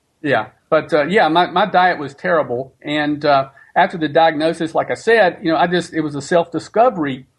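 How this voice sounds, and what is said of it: Southern American accent. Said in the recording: “What are you, a southerner? ... Yeah, you may have noticed the accent.”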